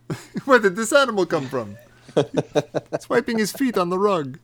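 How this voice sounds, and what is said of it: Imitates another person's voice. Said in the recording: “my impression of Sallah's wife”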